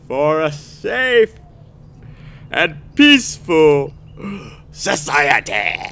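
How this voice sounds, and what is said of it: Palpatine character voice impression. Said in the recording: “That was my Palpatine impression ... How's that? Huh? I should stick to the light side of the Force.”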